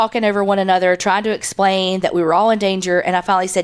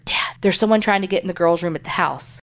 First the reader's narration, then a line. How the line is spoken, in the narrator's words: I whispered